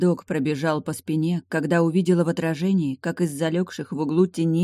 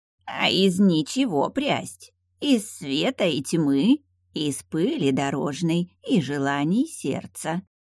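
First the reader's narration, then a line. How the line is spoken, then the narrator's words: Creaky voice. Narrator (Russian): Чаян задрал получеловечью полузвериную мордочку и проскрипел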